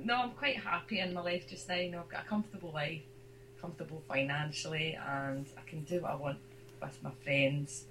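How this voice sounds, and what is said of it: Hoarse, croaky throat. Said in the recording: “I've got a frog in my throat”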